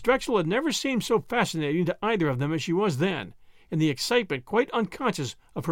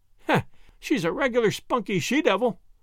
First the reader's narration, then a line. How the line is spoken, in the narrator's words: Miss Drexel laughed agreement